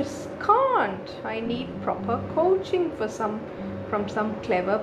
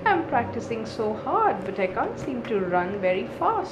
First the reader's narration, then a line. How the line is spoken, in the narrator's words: grumbled Noddy to himself